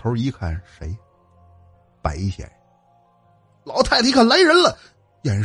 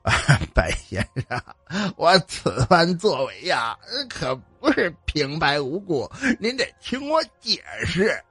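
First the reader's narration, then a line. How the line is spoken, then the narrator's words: Smiling, slightly aggrieved. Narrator (Chinese): 满面堆笑，又自带点委屈的说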